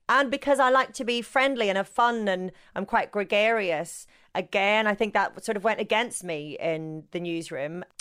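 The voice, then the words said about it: Northern Irish accent. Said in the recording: “I've got my Northern Irish accent”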